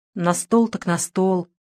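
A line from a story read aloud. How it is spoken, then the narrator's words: Muttering under breath. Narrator (Russian): буркнул себе под нос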